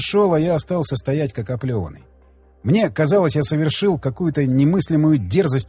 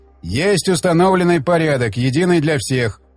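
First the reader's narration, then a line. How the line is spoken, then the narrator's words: Formal official tone. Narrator (Russian): официальным тоном заявил Оттон Лид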